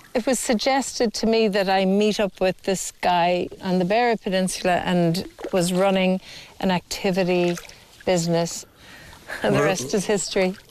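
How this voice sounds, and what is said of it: Irish Port Laois accent. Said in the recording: “I'd never heard a Port Laois accent before.”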